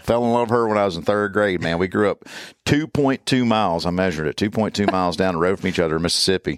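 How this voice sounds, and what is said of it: Strong Southern American accent. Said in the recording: “My accent is definitely a lot stronger living with her ... a Southern accent”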